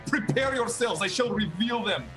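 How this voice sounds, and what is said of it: Put-on accent. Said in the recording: “I have to go back to normal accent”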